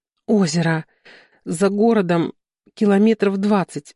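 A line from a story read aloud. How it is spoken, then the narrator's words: Breathless exhale. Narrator (Russian): наконец выдохнула Варя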